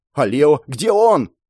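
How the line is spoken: Shouted. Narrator (Russian): прокричал я

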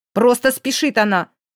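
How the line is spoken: Angry, through gritted teeth. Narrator (Russian): зло процедил незнакомец

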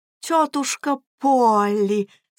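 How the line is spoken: Fake enthusiastic exclamation. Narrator (Russian): с фальшивым воодушевлением воскликнул Эдвард

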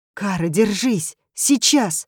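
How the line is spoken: Exclaiming. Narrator (Russian): воскликнула она

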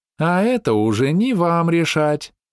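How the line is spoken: Singsong drawl. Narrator (Russian): нараспев протянула Оксана

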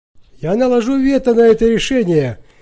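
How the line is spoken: Booming echoing voice. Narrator (Russian): прогремел голос народного трибуна Гнея Ксаверия, эхом разнесшийся по залу Сената

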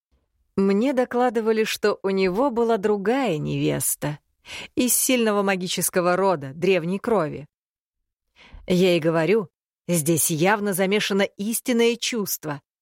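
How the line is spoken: Plain. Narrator (Russian): ответил Травин

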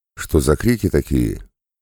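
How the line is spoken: Surprised question. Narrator (Russian): его удивленный вопрос

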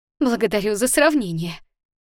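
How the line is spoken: Laughing. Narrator (Russian): засмеялась Вера

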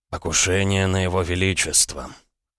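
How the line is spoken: Hoarse reply. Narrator (Russian): хрипло ответил Макаров

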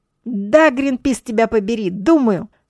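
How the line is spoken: Angry shout. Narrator (Russian): со злостью закричала Ева

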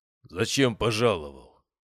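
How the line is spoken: Displeased deep bass. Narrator (Russian): недовольно пробасил кузнец

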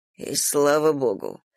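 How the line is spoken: Muttering under breath. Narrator (Russian): пробормотал Ник себе под нос

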